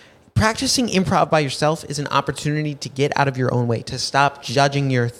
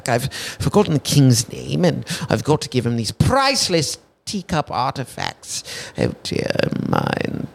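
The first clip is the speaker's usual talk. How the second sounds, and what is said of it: Put-on British accent. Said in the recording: “If you're bad at accents, practice your accents in the car, right? Your British accent.”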